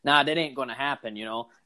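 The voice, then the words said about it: Put-on Boston accent. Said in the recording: “however the Boston accent is ... That was pretty good.”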